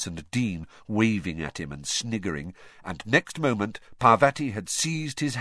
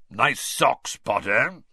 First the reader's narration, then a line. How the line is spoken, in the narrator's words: Moody growled